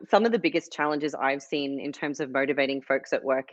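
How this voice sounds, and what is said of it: Australian accent. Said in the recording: “lovely Australian accent”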